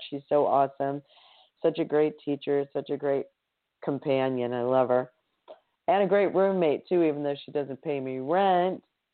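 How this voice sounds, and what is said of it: Strained, dry voice. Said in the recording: “As you can tell, my voice has been a bit strained. It's been a bit dry.”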